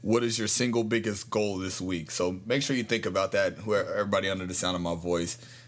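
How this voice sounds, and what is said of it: Deep voice. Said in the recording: “mesmerized by his deep voice”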